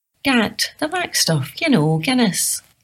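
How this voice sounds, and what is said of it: Soft lilting Irish accent. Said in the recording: “The lilting softness of his Irish accent made it sound like he was about to sing.”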